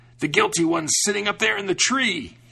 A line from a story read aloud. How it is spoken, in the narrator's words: screamed